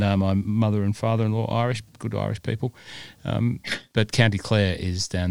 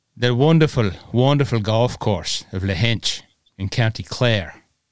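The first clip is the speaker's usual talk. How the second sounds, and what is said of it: Deliberately poor put-on Irish accent. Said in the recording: “That's a very bad Irish impersonation, but I love the Irish accent”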